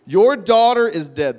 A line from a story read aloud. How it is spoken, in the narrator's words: they said